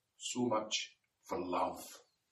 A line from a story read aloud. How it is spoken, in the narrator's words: she whispers to him